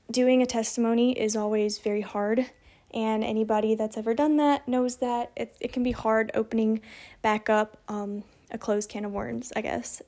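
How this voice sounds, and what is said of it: Shaky, emotional voice. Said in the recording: “my voice sounds a little bit shaky”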